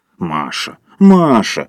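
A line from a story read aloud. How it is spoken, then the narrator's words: Reproachful booming drone. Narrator (Russian): укоризненно прогудел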